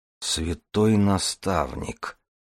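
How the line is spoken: Whisper. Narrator (Russian): прошептал Дар

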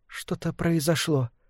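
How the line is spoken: Quiet. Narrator (Russian): сказала Лилия негромко

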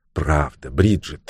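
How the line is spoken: Gentle agreement. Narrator (Russian): мягко поддержала его мисс Уэйнфлейт

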